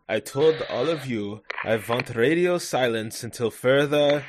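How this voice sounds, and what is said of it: Put-on German accent. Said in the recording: “I'm gonna attempt a German accent”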